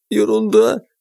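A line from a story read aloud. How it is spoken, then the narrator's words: Sob. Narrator (Russian): всхлипнула Глашка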